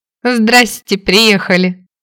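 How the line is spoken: Laughing. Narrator (Russian): рассмеялась я

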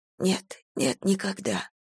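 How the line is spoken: Whisper. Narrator (Russian): шепнула

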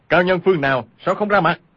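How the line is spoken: Frightened, angry shout. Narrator (Vietnamese): vừa sợ vừa giận, y quát lên

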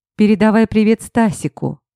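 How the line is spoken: Snort. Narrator (Russian): Фыркнула я

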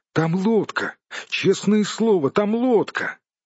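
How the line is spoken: Sudden exclamation. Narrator (Russian): Внезапно Бильбо воскликнул

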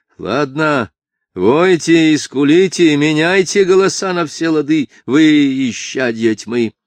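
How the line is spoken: Hoarse proud laughing shout. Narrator (Russian): крикнула она с хриплым, но гордым смехом

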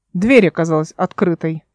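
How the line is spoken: Snapping retort. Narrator (Russian): огрызнулся Кика

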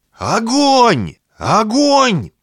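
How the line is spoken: Panicked shouting into radio. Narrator (Russian): закричал свою рацию первый охотник, видя, как его напарник рухнул на землю

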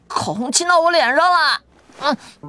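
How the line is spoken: Crying out. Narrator (Chinese): 云建威叫唤

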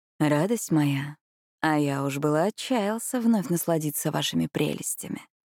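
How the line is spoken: Flirtatious male whisper. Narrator (Russian): мужской голос за спиной фривольным тоном прошептал в ухо

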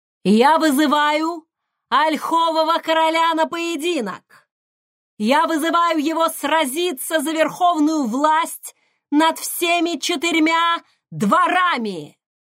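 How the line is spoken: Shout. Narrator (Russian): прокричал

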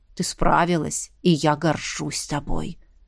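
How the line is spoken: Whisper in the ear. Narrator (Russian): шепнула мне на ухо

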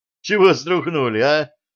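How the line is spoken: Laughing old man. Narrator (Russian): расхохотался пенсионер

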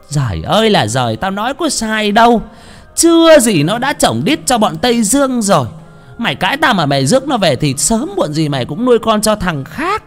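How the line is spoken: Mother's loud shrieking scold. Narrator (Vietnamese): Bà mẹ quát lớn rít lên

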